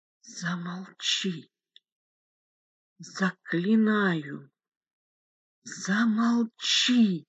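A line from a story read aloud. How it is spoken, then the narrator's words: Whisper. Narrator (Russian): прошептал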